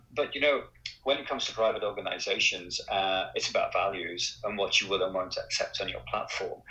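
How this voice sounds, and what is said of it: Non-native foreign accent. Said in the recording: “as you can tell from my accent, as a relatively new American”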